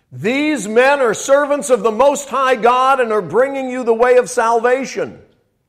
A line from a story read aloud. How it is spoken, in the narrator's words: shouting at the top of her voice